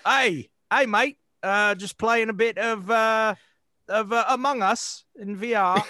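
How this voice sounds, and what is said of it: Poor put-on Australian accent. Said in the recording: “Hugh Jackman's accent ... that's not a good accent ... You went straight to British.”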